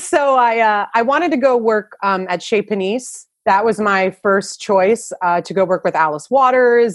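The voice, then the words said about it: New Jersey accent. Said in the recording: “I hear the New Jersey accent. I love it.”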